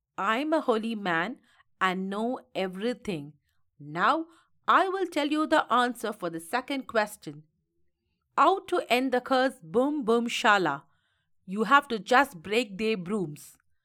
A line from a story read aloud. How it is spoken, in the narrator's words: He laughed aloud and said